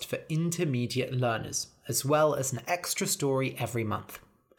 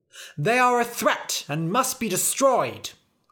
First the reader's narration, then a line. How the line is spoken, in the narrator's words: cried the knights